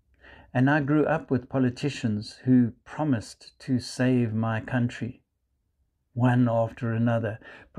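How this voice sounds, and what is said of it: South African accent. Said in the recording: “You might hear from my accent, I come from South Africa.”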